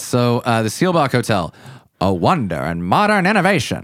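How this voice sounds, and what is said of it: Generic old-time radio announcer voice. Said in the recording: “Are we doing like a mobster voice again? Was that Disney in the 60s? ... That was just generic radio voice.”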